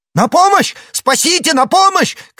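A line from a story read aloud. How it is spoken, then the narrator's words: Shouting. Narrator (Russian): крикнул он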